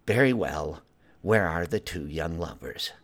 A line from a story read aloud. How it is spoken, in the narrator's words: She harumphed … sighed and said